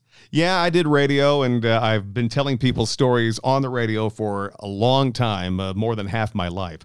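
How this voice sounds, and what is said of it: Polished radio announcer voice. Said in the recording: “got years of experience in radio, as you can probably tell from his voice.”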